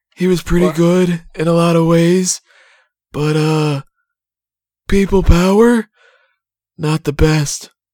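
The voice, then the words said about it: Impression of John Laurinaitis. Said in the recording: “That's actually a pretty good impression.”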